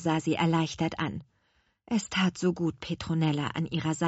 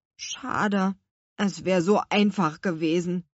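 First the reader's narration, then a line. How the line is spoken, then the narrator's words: Sighed. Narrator (German): seufzte Luis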